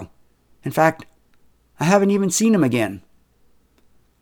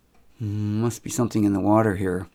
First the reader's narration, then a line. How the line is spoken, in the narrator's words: murmured Kelda almost to herself